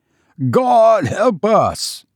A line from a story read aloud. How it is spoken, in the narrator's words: bellowed